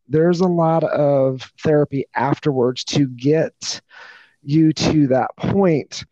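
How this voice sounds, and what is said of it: Raspy, gravelly voice. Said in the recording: “I'm pretty raspy because I've, been up all day and I've, been flying pretty dry air ... I'm raspy and that's just my voice. It's kind of gravelly”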